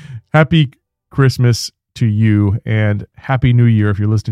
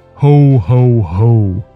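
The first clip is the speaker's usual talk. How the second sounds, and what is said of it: Deep low Santa Claus voice. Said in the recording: “I've got to practice that voice ... I have kind of a high-pitched voice, so I've got to practice that low Santa voice a little bit, that radio voice. It sounds so good.”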